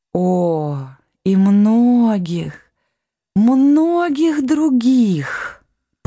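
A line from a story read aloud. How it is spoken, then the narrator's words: Drawled. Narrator (Russian): протянула королева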